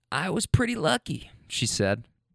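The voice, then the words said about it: Imitated old woman's voice. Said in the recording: “that old woman voice ... I'm trying my best to impersonate her”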